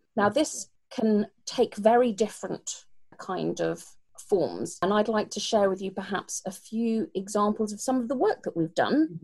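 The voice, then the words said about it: British accent. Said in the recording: “you can probably tell by my accent that I'm British”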